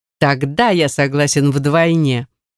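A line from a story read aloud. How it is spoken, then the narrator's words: Feigned displeasure. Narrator (Russian): Прерываю его веселье якобы недовольным голосом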